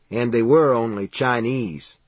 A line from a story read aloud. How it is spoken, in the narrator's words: Steve said